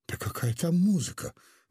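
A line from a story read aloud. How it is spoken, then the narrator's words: Sighing. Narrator (Russian): вздохнула Гаврилова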